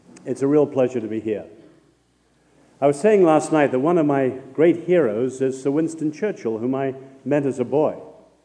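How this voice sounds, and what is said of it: Congested voice from heavy cold. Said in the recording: “I've got such a heavy cold and a thick head, I hope I'm intelligible anyway”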